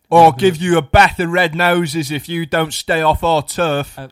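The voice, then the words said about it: Attempted Cockney gangster accent, sounds South African. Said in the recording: “That's sort of South African ... I don't know where the accent was going ... I was kind of going for sort of like a Cockney gangster, but I didn't mean to come out as like a South African”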